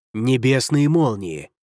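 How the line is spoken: Hiss. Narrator (Russian): прошипел Ху Вэй

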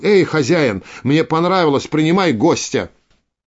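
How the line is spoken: Shouted. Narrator (Russian): Крикнул

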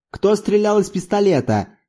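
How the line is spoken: Angry shout. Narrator (Russian): сердито крикнул Зорбас

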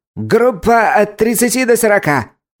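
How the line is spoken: Loud shrill female bark. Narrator (Russian): Громко пролаял пронзительный женский голос

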